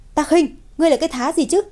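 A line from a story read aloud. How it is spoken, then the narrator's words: Sharp shout. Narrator (Vietnamese): Lâu Tín quát một tiếng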